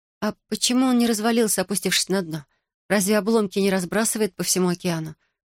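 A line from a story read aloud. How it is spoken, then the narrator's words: Plain. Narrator (Russian): спросила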